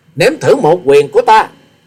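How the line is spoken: Thunderous roar. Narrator (Vietnamese): Hòa sĩ Kiệt gầm lên như sấm

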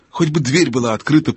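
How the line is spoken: Whisper. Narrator (Russian): прошептал Юстас

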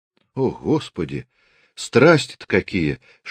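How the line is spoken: Mock-frightened exclamation. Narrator (Russian): с шутливым испугом воскликнула она

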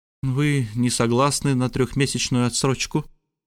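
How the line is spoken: Gloomy question. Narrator (Russian): мрачно спросила леди Лор

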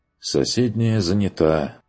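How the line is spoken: Regretful sigh. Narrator (Russian): вздохнул он с сожалением

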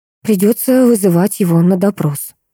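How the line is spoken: Sighing. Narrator (Russian): вздохнула

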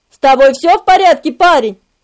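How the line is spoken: Irritated question. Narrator (Russian): раздраженным тоном спросил он

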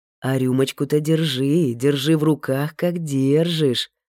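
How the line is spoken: Gentle, affectionate. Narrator (Russian): ласково проговорил Алексей

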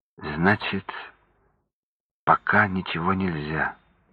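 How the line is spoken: Sad. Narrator (Russian): печально заключила Аня

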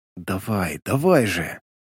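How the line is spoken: Whisper under breath. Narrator (Russian): прошептал себе под нос

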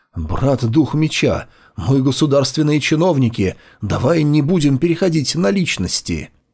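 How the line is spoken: Anxious question. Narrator (Russian): Гу Юй Си взволнованно спросила

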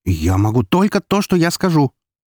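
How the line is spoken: Sharp interruption. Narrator (Russian): резко перебила она меня

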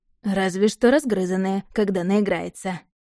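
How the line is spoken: Smirking grunt. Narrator (Russian): хмыкнул темный

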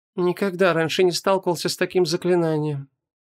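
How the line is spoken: Quiet. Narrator (Russian): тихо произнес Мурок

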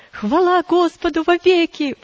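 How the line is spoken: Fervent exclamation. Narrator (Russian): воскликнула мать с жаром возвратившейся веры и надежды

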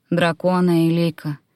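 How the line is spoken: Sighing. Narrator (Russian): вздохнул друид

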